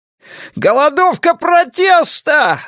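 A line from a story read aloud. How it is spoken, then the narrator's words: Yelled. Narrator (Russian): завопил он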